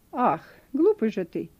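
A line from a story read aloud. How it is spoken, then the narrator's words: Angry. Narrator (Russian): произнесла она сердито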